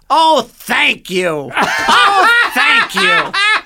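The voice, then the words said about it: Gilbert impression. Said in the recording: “I do a Gilbert impression.”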